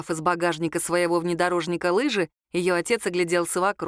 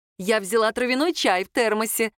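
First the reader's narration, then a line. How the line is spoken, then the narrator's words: Cheerful mother announcing. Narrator (Russian): радостно сообщила мама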